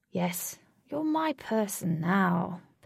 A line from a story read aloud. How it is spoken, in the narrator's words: purred Blue